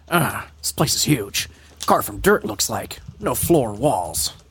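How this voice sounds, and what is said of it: Gravelly Solid Snake character voice. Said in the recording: “I'm going to go back to Snake because Vegeta's hurting my throat ... You literally just sound like the impersonation Otacon. Of Solid Snake in DBZ Abridged.”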